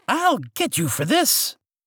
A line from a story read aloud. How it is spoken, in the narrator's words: Madder than ever, the Archduke shouting